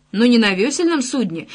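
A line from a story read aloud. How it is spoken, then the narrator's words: Exclaimed. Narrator (Russian): воскликнул Рик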